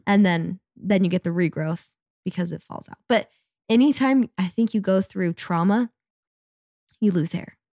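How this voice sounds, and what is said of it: Raspy voice from illness. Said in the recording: “By the way, I'm sick. That's why my voice sounds like this. I'm not just trying to be like a raspy, sexy ... I love getting sick for the rasp. I love a raspy moment.”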